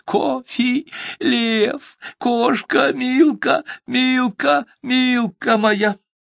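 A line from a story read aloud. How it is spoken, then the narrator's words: Shouting through tears. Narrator (Russian): Полились слезы, и сквозь слезы кричал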